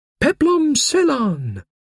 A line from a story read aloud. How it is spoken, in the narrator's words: I heard a general shout with frequent repetitions of the words